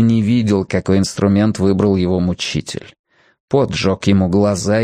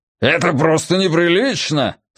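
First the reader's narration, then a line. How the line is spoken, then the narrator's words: Angry shout. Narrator (Russian): со злобой выкрикнул Нодди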